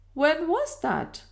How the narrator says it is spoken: demanded the Colonel anxiously

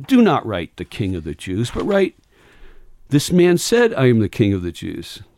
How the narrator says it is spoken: Pilate answered

